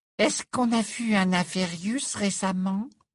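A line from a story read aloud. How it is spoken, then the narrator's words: Small high-pitched question. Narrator (French): demanda Parvati Patil d'une petite voix aiguë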